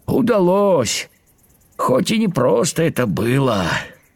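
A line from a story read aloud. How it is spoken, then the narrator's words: Tired grasshopper's reply. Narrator (Russian): устало ответил кузнечик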